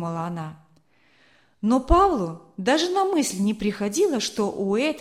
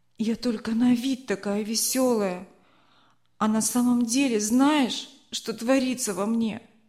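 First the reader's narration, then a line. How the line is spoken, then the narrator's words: Trembling moan. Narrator (Russian): Голос Марины дрогнул, и она простонала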